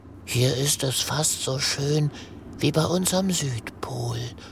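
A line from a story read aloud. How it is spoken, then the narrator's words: Whisper. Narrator (German): flüstert Greta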